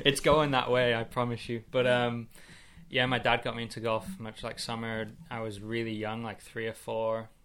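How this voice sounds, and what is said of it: English accent. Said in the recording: “You can probably hear already from my accent. I grew up in England ... I thought you were just up north Texas, really. That's where I was getting the accent from.”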